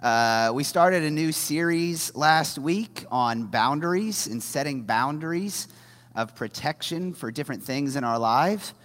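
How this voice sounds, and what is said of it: Deeper, strained husky voice. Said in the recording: “I have been struggling with my voice all weekend, so if I sound deeper ... I've got my Phoebe sexy voice going on this morning”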